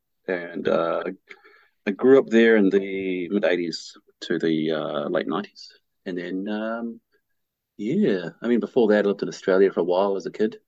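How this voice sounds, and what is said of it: New Zealand accent with Australian influence. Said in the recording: “my accent is uh, kind of skewed from my Australian sort of part of my life”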